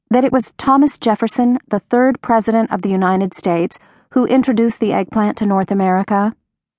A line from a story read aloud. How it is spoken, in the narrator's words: I said brightly to McQuaid